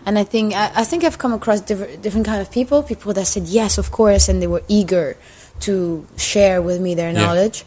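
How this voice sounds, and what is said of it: French accent, direct tone. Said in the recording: “maybe it's my French accent or the tone of my voice as being a bit direct”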